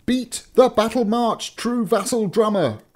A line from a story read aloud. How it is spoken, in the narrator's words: cried Nutcracker